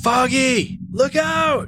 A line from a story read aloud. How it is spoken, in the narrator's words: yelled Finn